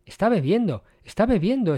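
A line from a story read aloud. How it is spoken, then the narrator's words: Excited exclamation. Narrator (Spanish): exclamó Doniphan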